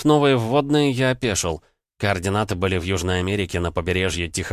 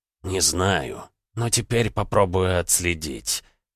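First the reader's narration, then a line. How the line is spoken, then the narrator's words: Grumbling mutter. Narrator (Russian): буркнул бог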